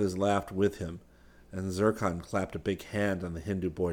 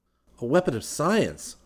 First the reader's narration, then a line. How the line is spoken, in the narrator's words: Rick exclaimed